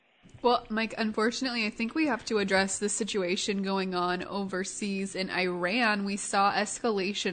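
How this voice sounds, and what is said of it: Sick voice from a cold. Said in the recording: “I've got a little bit of a cold this morning, so if uh, I sniffle or cough a little ... please excuse me if I sound like I've got a sick voice.”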